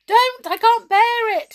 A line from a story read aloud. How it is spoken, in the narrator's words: he shouted, rolling around on the floor